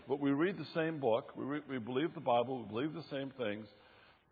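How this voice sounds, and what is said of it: Southern US accent. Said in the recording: “where I live in South Carolina ... they were really benefited from hearing my accent”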